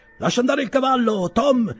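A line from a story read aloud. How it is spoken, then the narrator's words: Shouted, master. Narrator (Italian): gridò il padrone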